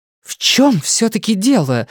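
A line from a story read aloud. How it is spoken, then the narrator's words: Alarmed shout. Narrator (Russian): закричала она, и тревога в её голосе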